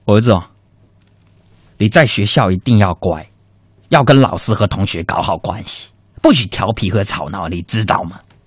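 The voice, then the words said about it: Hong Kong/Taiwan-style Mandarin accent. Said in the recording (Chinese): “你口音怎么有点港台腔呢？……我这不是看港剧看多了吗”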